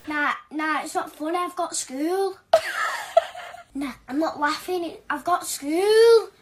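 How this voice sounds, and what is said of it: Put-on British accent. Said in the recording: “the British girl ... In a British accent.”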